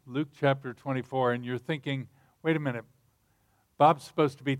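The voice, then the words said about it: American-sounding accent. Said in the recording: “It sounds like I was born and bred and buttered in the U.S.”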